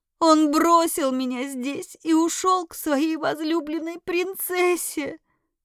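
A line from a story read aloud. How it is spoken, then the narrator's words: Young woman spitting words bitterly. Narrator (Russian): Выплюнула девушка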